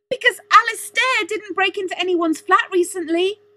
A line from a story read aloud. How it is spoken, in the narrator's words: she shouted